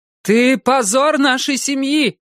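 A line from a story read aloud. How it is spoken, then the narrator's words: Shouting. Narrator (Russian): крикнула она ему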